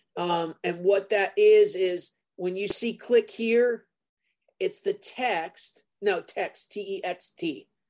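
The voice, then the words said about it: New Jersey accent. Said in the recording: “that Jersey accent of mine”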